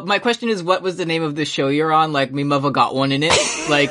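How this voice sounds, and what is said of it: Put-on English accent. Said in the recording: “I am part English, so I can do this... My grandma had the accent and everything... You can also do the voice.”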